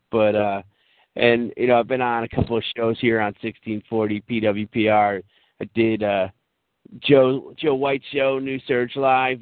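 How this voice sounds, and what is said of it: Strained, worn-out hoarse voice. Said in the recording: “I've been on so many shows the last couple of days that my voice is killing me. I feel like I'm Hulk Hogan's lawyer”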